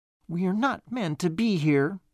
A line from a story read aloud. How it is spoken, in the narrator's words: stammered Banjo